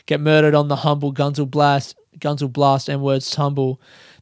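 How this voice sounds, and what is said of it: Put-on accent while rapping lyrics. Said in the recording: “I shouldn't even do the accent. I feel like that's somehow offensive.”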